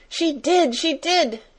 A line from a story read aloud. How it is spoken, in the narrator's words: she cried